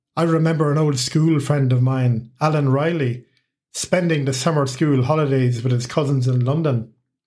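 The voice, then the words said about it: Irish accent. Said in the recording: “I have an Irish accent ... my accent remain the same”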